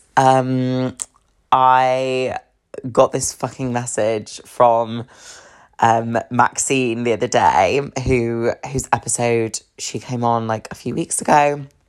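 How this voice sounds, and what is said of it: Husky, phlegmy sick voice. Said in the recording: “I've been like ill, so I don't know if you can hear the kind of the phlegm ... hear that in my voice, but it's just making my voice even more sultry, even more husky”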